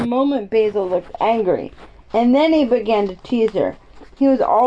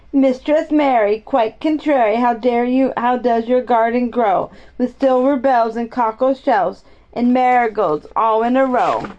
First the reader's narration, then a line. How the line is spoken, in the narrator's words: sang it until the other children heard and laughed too, and the more they sang